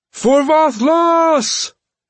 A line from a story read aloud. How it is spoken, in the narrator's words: Hromund screamed